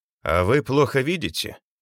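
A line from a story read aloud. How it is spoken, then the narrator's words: Through gritted teeth. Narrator (Russian): процедил Михаил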